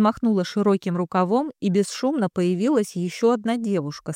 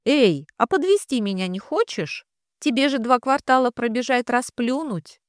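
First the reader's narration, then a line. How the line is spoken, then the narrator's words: Snide, smiling. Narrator (Russian): ехидно улыбнулась она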